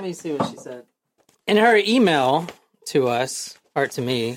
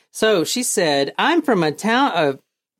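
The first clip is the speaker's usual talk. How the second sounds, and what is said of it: Girlish Valley Girl voice. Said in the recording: “I'm talking like a girl ... Are you trying to do Valley Girl voice?”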